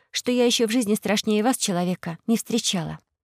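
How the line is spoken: Quiet. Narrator (Russian): тихо произнесла Алиса

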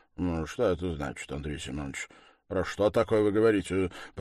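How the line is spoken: Mutter. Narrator (Russian): пробормотал Лужин

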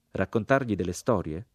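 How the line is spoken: Plain. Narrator (Italian): disse il sergente

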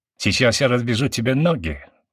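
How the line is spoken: Angry. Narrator (Russian): зло проговорил

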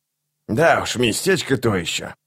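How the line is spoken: Through gritted teeth. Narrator (Russian): процедил старший солдат

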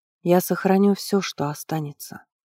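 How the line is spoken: Quiet promise, priestess. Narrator (Russian): тихо пообещала ему жрица

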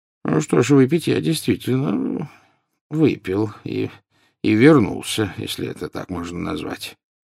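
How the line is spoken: Mumbled. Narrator (Russian): пробормотал Дамблдор

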